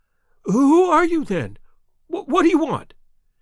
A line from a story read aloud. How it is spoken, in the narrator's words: he asked in a quivering voice